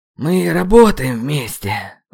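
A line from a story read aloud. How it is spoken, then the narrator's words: Breathed out. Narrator (Russian): выдохнул я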